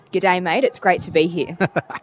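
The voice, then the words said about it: Put-on Australian accent, fairly good. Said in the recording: “could you give us an Australian accent ... It's going to be really bad ... That's pretty good. That's pretty good.”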